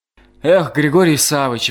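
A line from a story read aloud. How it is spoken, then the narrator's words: Monk sighing. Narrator (Russian): вздохнул монах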